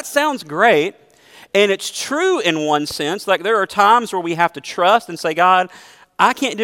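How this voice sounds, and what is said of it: Usual voice. Nothing is said of it.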